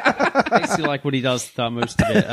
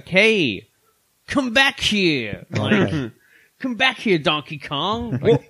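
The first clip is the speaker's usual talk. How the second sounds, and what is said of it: Generic American accent impression. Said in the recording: “Mario has an American accent ... It's a generic,”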